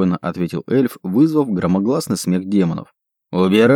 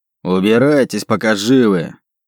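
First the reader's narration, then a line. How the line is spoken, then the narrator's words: Roaring demon. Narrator (Russian): проревел второй демон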